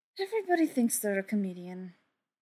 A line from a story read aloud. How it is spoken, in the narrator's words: Mike sighed